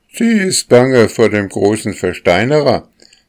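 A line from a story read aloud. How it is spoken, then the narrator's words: Young birch, cheeky and cheerful. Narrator (German): sagte eine hellgrüne junge Birke, die so keck und fröhlich dahinschritt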